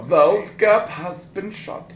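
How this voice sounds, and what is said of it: Old-timey English-German put-on accent. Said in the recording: “that accent. Kind of like oldie timey English meets German”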